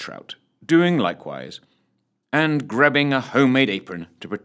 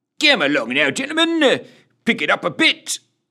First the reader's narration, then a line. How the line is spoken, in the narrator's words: barked Sergeant Roger Wilco Rogers in his annoyingly brusque manner